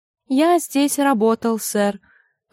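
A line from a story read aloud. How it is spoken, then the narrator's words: Timid reply. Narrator (Russian): робко отозвался Турнепс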